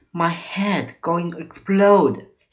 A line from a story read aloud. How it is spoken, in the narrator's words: he cried